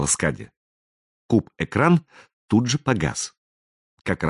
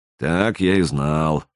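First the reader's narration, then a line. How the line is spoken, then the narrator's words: Gloomy pronouncement. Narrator (Russian): мрачно изрек Луиджи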